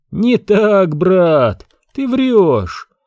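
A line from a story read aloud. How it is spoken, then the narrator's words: Laughing loudly. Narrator (Russian): расхохотался Пакси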